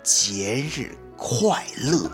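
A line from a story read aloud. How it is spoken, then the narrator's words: Slow. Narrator (Chinese): 慢慢的跟他说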